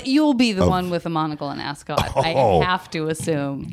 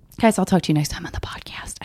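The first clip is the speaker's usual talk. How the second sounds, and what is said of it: Whispering. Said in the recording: “I don't know why I'm whispering.”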